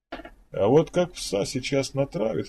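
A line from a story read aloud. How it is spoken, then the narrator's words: Chuckling. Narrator (Russian): хохотнул Петр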